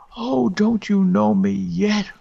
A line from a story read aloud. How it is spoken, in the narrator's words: wailed the voice